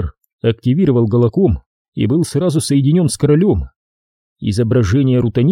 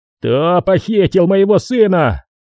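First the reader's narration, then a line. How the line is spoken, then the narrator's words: Roaring king. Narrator (Russian): взревел король Франа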